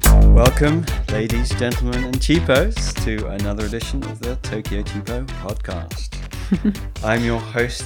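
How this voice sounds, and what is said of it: Ostentatious radio announcer voice. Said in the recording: “announcer voice ... My ostentatious announcing voice”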